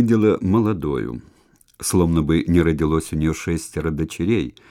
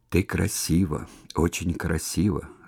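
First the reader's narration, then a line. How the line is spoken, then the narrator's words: Whispering. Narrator (Russian): шептал он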